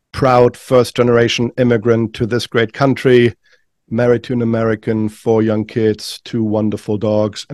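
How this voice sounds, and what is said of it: German accent. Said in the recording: “I hail from Düsseldorf, Germany, in case you're wondering where the funny accent is from.”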